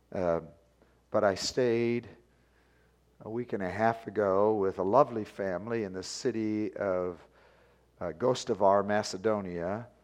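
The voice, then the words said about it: Voice affected by a cold. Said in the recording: “I have not been yelling at Charlotte. That's not why my voice is the way it is ... all four of them had colds”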